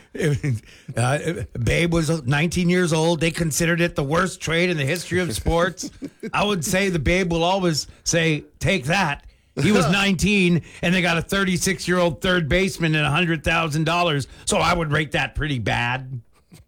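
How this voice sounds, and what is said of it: Rusty impression of another speaker. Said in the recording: “your impression was better before ... It's a little rusty ... It's very rusty ... It's never been close”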